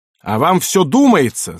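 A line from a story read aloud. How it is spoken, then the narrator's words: Yelled. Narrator (Russian): заорал майор Фрэнк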